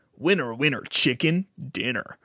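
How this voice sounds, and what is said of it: Imitates a video game announcer voice. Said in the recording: “my impression of him saying ... that's pretty good.”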